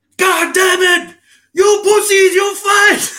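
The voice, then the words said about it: Shouted Austrian-style movie accent. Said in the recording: “imagine like a 5'7" Arnold Schwarzenegger accent”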